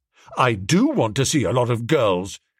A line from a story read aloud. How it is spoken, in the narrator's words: said Biffy firmly